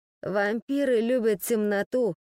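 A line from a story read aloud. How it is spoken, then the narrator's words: Confused mumble. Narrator (Russian): растерянно пробормотал он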